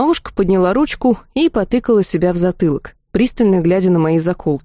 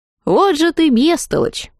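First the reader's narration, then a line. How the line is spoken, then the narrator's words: Laughing. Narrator (Russian): рассмеялась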